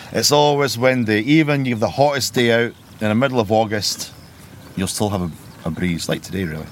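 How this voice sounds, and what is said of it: Slightly softened Scottish Borders accent. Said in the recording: “your accent's not local ... I'm from the Scottish Borders, just outside Melrose ... you kept your accent ... it sounded a bit watered down”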